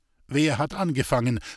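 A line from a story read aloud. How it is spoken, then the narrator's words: Sharp question. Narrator (German): fragte Herr Felician scharf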